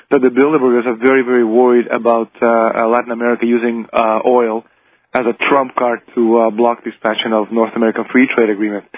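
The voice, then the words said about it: Strained, fading voice. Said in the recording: “I think I'm losing my voice.”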